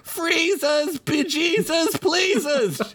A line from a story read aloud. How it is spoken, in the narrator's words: yelled Chickpea